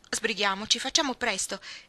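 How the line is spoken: Exclaiming. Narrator (Italian): esclamò Joe

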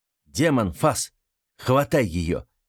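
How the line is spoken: Commanding. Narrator (Russian): приказал Артем

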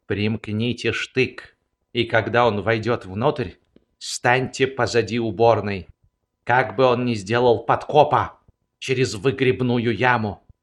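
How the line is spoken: Quiet. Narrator (Russian): вахмистр тихо сказал ему

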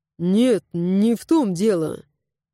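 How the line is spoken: Plain. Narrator (Russian): ответил Гаррет

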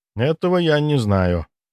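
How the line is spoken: Quiet answer. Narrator (Russian): тихо ответил Дима

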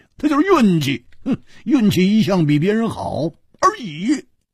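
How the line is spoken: Laughing. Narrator (Chinese): 胡铁花笑着说

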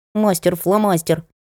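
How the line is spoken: Displeased muttering. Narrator (Russian): пробормотал недовольный Сенька

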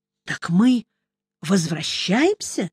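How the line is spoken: Near-whispered question. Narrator (Russian): почти шепотом спросил Мелифара

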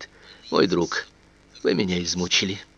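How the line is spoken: Tired, repeating. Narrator (Russian): Голос устало повторяет

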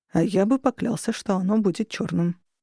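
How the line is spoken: Muttered. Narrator (Russian): пробормотал он

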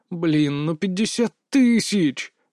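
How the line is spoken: Groan. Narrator (Russian): простонал я

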